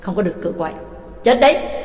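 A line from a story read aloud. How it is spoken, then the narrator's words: Cold. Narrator (Vietnamese): Ba Tàng lạnh lùng nói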